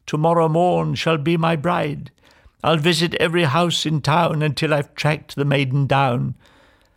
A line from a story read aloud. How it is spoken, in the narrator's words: he cried